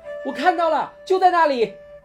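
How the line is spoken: Sudden shout. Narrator (Chinese): 波利忽然喊道

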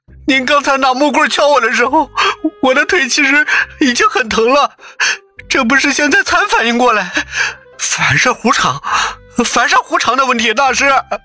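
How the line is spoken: Whining, miserable. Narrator (Chinese): 那个混混哭丧着脸说道

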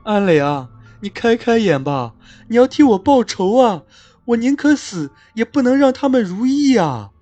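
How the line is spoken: Weeping. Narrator (Chinese): 继续哭

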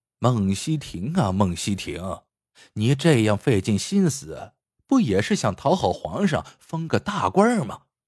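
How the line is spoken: Cold sneer. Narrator (Chinese): 赵东陵一声冷笑

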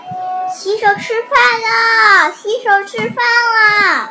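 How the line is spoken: Shouting. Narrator (Chinese): 熊妈妈 喊

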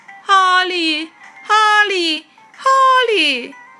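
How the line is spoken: Repeated distant calling. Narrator (Chinese): 有人在叫他的名字 一声接着一声

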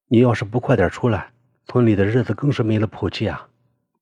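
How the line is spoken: Sighing. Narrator (Chinese): 凤叹息道

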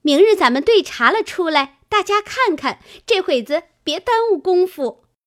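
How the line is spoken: Laughing. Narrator (Chinese): 湘云笑道

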